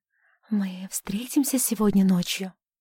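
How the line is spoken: Whispered. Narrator (Russian): прошептала

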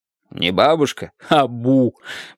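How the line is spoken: Laughing. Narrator (Russian): продолжал смеяться

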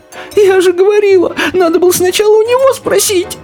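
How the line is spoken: Sobbing. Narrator (Russian): рыдала желтая

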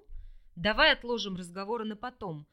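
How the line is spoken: Stern interruption. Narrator (Russian): строго оборвал меня на полусловии Лишту

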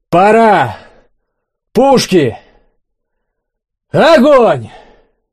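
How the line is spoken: Shouting. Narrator (Russian): Олег крикнул

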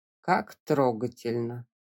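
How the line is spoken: Mocking drawl. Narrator (Russian): протянул Вуайль

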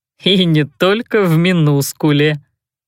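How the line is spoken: Giggling. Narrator (Russian): хихикнул кто-то сзади

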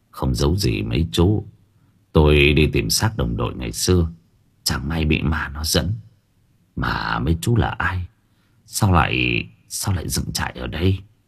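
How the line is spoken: Sighing. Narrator (Vietnamese): Sư thở dài

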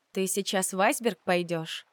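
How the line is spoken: Sad question. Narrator (Russian): печально спросила я, предчувствуя еще одну ночь в пустом номере

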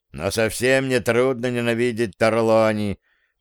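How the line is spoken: Grumbling. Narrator (Russian): проворчал Пьеро

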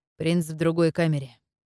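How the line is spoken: Plain. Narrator (Russian): ответил Шиби

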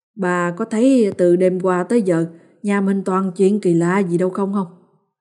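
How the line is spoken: Sighing. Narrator (Vietnamese): ông thở dài một hơi rồi nói

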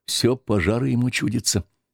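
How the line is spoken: Quiet after pause. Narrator (Russian): Никита, помолчав, сказал тихонько

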